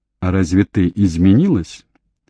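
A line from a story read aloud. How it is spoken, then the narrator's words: Calm question. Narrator (Russian): Дэвид спокойно спросил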